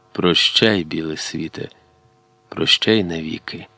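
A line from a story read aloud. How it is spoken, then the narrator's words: Quiet. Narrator (Ukrainian): тихо додав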